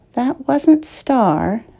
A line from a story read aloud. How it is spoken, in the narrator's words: Michael said quietly